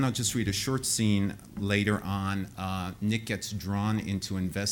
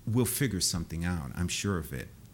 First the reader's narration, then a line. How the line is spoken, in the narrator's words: Calmly, Stefan said